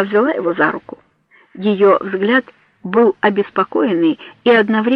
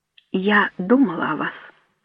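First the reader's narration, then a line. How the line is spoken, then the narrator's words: Quiet, serious. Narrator (Russian): сказала она тихо и серьезно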